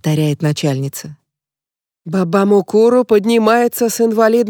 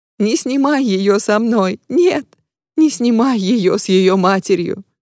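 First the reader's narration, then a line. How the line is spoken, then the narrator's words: Sobbing. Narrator (Russian): рыдает Май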